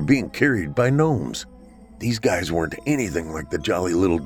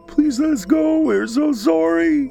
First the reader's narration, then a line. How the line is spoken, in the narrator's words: wailed the young boys, clearly distressed